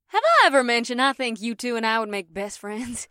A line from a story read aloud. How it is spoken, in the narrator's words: Rikuri chuckled to the Kunag women